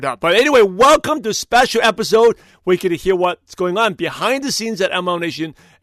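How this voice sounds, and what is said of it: Hoarse, partly lost voice. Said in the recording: “I've kind of lost my voice a little bit”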